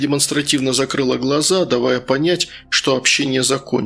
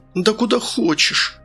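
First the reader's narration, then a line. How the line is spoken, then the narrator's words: Irritated hoarse sick woman. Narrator (Russian): раздраженно прохрипела больная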